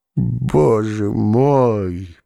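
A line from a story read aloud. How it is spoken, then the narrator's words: Groaning. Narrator (Russian): простонал Цветков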